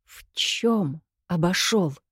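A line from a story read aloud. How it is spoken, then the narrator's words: Fearful whispered question. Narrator (Russian): шепотом спросила я, отчего-то боясь нарушить размеренную тишину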